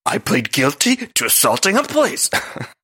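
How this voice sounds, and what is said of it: Poor Luann impression, Cookie Monster-like. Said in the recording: “my Luann impression is terrible. It's really just the Cookie Monster.”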